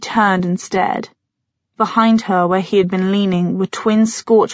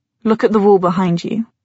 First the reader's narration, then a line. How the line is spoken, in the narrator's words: he said in a flat voice